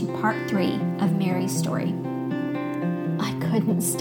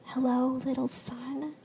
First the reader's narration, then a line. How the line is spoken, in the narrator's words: gulped softly, willing myself to stop crying